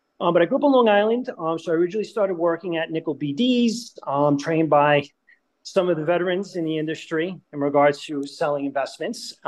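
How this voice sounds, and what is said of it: New York accent. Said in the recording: “Originally from New York, I know you could tell because I can't shake the accent, no matter how hard I try.”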